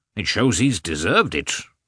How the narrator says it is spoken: replied, sternly and seriously

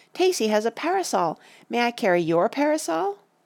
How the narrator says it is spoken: Betsy cried

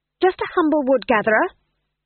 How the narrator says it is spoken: she snapped

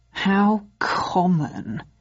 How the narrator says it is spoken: he sneered

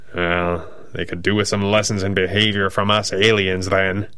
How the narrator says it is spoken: growls

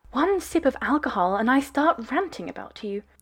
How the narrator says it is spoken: said

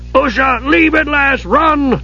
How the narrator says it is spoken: Dugan screamed

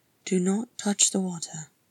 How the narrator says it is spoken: she murmured

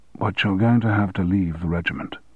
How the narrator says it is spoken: said softly

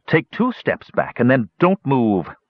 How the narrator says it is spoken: Through clenched teeth, Parian ordered

